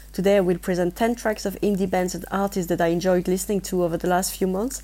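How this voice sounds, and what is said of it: French accent. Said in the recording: “I have a French accent, so please bear with me”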